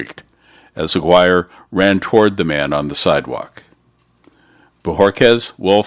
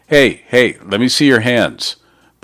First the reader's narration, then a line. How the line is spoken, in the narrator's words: shouted